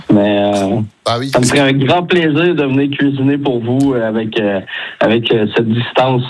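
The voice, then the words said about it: Québécois French accent. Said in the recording (French): “cet accent québécois ... Vous avez de la chance d'avoir cet accent ... quand t'es québécois, que tu parles comme ça”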